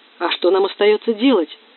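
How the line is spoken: Angry. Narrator (Russian): сердито произнес

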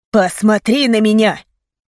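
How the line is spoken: Anguished cry. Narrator (Russian): выкрикнул он с мукой в голосе

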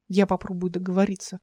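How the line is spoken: Whisper. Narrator (Russian): шепнул Рассел

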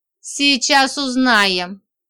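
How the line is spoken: Growl. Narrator (Russian): прорычала я

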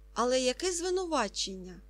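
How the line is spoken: Plain. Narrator (Ukrainian): запитав Ка

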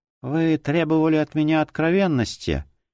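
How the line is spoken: Quiet, broken voice. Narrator (Russian): Тихим надломленным голосом произнесла она

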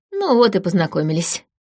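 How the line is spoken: Snake's snort. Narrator (Russian): хмыкнул змей

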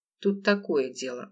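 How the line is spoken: Sighed again. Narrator (Russian): ухо снова вздохнул

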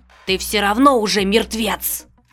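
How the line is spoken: Woman hissing. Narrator (Russian): Шипела женщина

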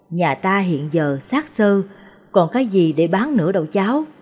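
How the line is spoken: Grandmother's sigh. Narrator (Vietnamese): Bà nội thở dài

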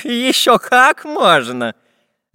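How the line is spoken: Laughing professor. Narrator (Russian): засмеялся профессор

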